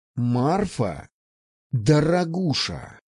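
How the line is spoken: Near growl. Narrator (Russian): почти прорычал я

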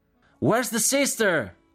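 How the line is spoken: Several voices shouting. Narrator (Italian): gridarono alcune voci

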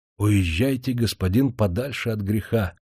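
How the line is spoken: Mysterious whisper. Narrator (Russian): он таинственно прошептал ему

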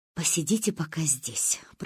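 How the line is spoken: Whispered, mother. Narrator (Russian): прошептала мама

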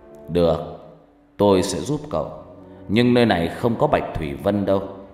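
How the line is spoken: Smiling. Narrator (Vietnamese): Kiên Nát mỉm cười

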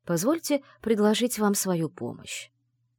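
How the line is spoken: Gentle. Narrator (Russian): мягко сказал он

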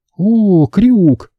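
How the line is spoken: Cooing. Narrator (Russian): проворковала

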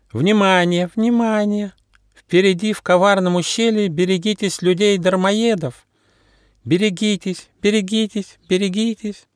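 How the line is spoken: Thin-voiced singing. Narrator (Russian): Тоненьким голоском она пела

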